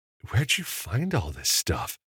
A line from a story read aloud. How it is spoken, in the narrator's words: Evan murmured